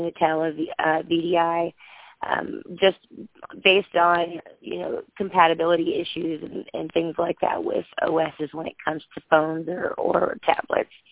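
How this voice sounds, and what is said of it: Hoarse voice. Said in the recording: “I'm, I'm getting over the flu, so that's why I sound so hoarse.”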